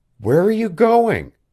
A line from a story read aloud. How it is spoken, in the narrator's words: Janet's voice had the ring of scorn in it, though she tried to think kindly